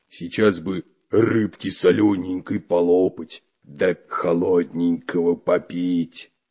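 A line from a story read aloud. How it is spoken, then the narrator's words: Deep bass, hungry. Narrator (Russian): пробасил голодный Бульбуль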